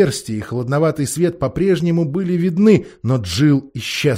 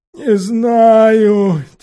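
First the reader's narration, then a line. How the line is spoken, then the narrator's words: Heavy sigh. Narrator (Russian): тяжело вздохнул Квакль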